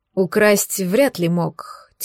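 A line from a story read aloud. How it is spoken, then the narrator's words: Heavy sigh. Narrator (Russian): тяжело вздохнул Валерий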